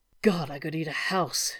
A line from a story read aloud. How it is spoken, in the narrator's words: Shepherd muttered